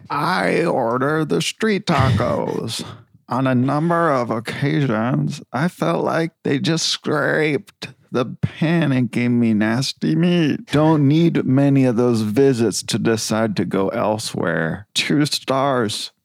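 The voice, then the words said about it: Bart Simpson cartoon character voice. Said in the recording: “I'm going to do my Bart Simpson voice because a lot of people tell me I'm good at doing it”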